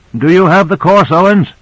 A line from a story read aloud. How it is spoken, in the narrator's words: called out